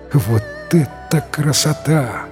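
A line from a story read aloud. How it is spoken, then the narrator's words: Admiring exclamation. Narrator (Russian): восхищенно воскликнул Бао-Джу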